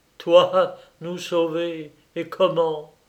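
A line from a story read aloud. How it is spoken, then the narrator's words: Exclaimed. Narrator (French): s'écria monsieur de Louvigny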